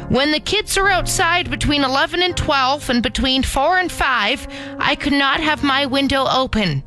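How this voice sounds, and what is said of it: Put-on voice of a complaining woman. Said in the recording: “put on a Carol voice”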